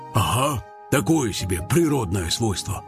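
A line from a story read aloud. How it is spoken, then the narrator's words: Sighing. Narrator (Russian): вздохнул садовод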